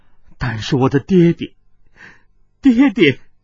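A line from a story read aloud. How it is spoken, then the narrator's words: Sobbing bitterly. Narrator (Chinese): 水灵光痛哭着说道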